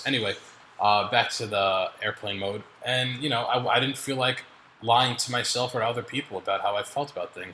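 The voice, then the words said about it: Voice going hoarse. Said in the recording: “losing my voice already ... I'm dying. I'm going to lose my voice.”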